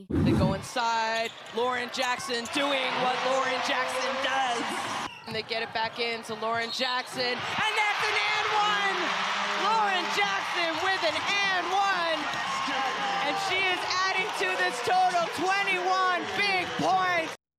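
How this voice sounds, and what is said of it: American accent. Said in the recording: “I love the American accent from the commentator there”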